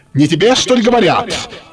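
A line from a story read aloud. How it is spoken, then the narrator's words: Shouted again, young man. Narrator (Russian): крикнул опять молодой человек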